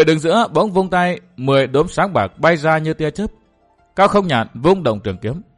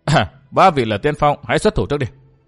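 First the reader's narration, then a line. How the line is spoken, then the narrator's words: Scornful sneer. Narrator (Vietnamese): Lâm Thành Phương cười khẩy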